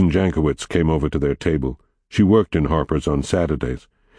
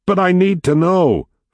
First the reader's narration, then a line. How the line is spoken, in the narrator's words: Fats yelled after him